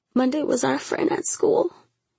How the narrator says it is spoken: Shayla whimpered

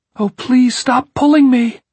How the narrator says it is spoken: he screamed at them

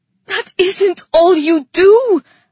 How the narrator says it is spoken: I cried

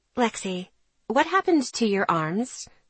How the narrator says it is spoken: She asked quietly, as if I didn't want this to be overheard

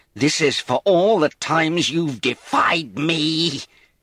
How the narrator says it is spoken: he screamed

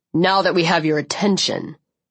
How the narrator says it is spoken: he snarled

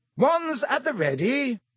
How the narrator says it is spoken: shouted Lockhart

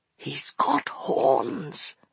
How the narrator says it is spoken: he whispered

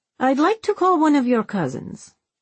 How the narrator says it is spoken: she said brightly

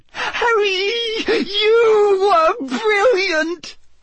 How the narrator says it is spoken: Hermione said squeakily

